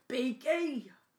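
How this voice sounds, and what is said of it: Imitates Hagrid's voice. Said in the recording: “That was my Hagrid impression. ... That was pretty good.”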